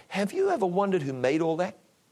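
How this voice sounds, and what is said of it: Gentle, soft voice. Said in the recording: “in his gentle voice,”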